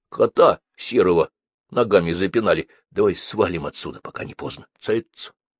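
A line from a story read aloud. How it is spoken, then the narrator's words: Whispered reply. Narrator (Russian): Тоже шептом ответил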